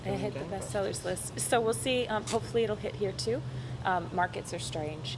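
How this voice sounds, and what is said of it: Speaks with a noticeable accent. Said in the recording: “it works a bit better with your accent.”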